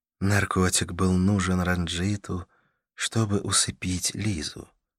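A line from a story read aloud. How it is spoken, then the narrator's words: Asked too softly. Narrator (Russian): спросила Карла слишком, на мой взгляд, мягким тоном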